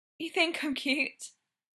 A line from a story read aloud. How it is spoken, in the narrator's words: Brendan said weakly